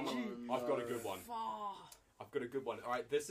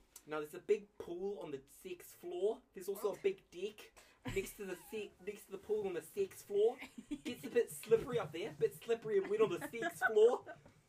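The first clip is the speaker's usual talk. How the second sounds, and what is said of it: Put-on New Zealand receptionist accent. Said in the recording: “this is the rare New Zealand accent you only see in front desk receptionists”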